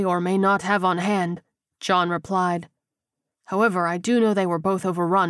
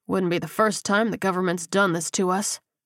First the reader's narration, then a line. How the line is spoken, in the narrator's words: Strickland muttered